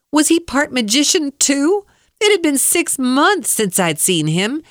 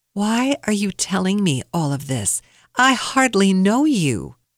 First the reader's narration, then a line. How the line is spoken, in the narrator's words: calmly asked